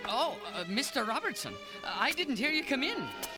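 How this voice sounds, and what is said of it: Irish accent. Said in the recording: “he's got an Irish accent”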